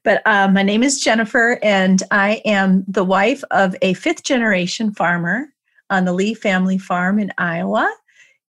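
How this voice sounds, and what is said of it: Fuzzy voice from a cold. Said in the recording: “pardon my voice ... I've had a cold, and so there's a little fuzziness in my voice right now.”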